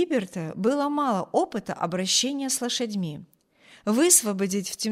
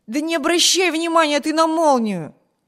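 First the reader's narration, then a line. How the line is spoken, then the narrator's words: Impatient shout. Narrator (Russian): нетерпеливо крикнул Виберт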